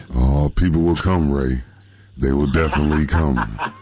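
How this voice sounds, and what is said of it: Impression of James Earl Jones. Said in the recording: “do their impersonation of James Earl Jones”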